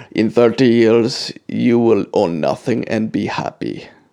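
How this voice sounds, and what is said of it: Scary German accent. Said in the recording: “Just picture that in a scary German accent”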